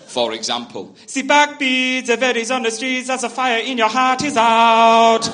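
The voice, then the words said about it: Singing in a German accent. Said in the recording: “It sounds awful though, in a German accent.”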